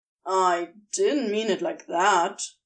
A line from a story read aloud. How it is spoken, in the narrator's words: he grumbled